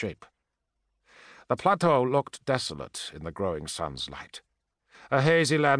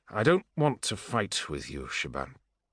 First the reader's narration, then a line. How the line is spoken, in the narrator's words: he said wearily